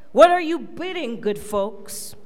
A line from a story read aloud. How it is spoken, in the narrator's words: he cried